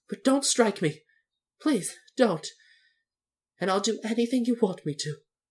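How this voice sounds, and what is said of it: Trembling, frightened voice. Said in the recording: “said the little man in a trembling voice.”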